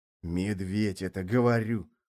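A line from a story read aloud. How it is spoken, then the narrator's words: Whispered repetition. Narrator (Russian): шепотом повторил Марокко со своей лавки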